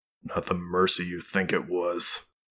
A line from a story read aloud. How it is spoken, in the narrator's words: Wolfgang grumbled